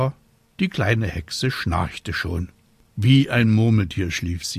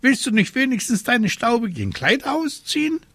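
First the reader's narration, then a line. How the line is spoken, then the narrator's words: Indignant exclamation. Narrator (German): rief Abraxas entrüstet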